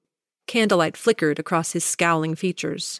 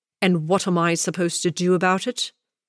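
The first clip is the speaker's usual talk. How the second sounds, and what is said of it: Deep male character voice. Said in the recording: “Fortescue's deep voice cut through the darkness”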